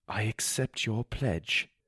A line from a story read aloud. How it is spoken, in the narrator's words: I said weakly